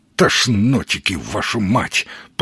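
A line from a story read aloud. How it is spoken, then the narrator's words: Growling. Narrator (Russian): прорычал он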